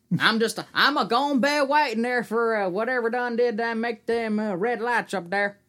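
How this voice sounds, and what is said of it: Put-on regional eastern US accent. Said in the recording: “That's about how he sounded, too, honestly. Not dissing an accent ... that's how some states back east sound like that.”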